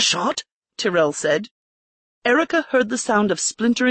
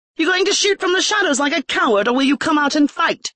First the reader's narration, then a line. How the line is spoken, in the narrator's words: She shouted